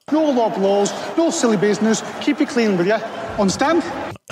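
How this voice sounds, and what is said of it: Northern British accent. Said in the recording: “That accent. ... Some British person will tell us, but I don't know where that one's from. That's some way up north thing or something.”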